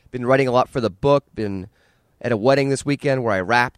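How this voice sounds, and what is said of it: Slightly raspy, hoarse voice. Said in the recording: “as you can tell from my voice. It's a little raspy and hoarse.”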